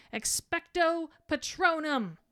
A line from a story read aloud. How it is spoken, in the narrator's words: Harry yells